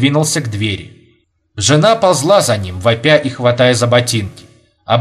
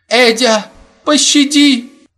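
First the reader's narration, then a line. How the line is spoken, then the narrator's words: Hoarse whimpering woman. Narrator (Russian): хрипло скулила жена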